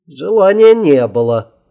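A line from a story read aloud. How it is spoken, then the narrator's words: Wry snort, emperor. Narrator (Russian): хмыкнул император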